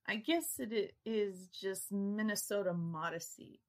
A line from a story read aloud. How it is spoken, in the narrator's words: I chuckled